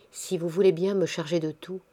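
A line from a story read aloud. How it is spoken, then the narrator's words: Murmured. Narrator (French): murmura Simoneau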